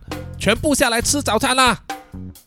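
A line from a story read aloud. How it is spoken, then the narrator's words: Loud shout. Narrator (Chinese): 赵大婶啊扯起他的嗓门大喊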